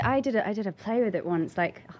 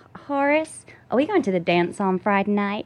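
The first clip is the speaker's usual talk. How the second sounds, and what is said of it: Put-on Southern US accent, Texan-sounding. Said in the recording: “the Southern accent seems to be a lot easier for Brits ... how's your Southern accent? ... That's kind of Texan.”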